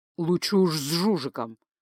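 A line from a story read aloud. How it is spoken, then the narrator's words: Displeased grumble. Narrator (Russian): пробурчал маг, недовольно морщась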